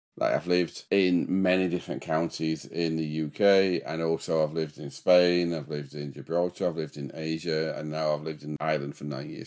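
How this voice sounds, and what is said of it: Mixed Yorkshire English accent. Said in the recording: “What part of the country is your accent from? Because I can't figure it out. ... I'm a bit of a mongrel, my accent nowadays. But no, it's a Yorkshire accent.”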